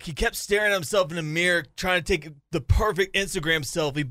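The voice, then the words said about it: Weak imitation of another person's voice. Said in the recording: “Am I doing a good job at your impersonation? ... it's a little weak.”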